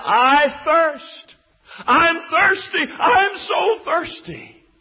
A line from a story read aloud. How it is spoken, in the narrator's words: He cried out on the cross and He said